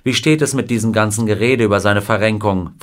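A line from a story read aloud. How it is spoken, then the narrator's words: Plain question. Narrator (German): fragte ihn Wilder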